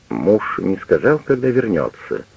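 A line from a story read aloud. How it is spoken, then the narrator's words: Plain. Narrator (Russian): спросила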